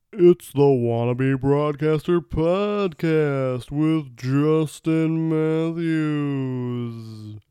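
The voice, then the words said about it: Bad Don Pardo announcer impression. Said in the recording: “Bad Don Pardo Impression. ... Don Pardo Kids was the famous announcer for Saturday Night Live.”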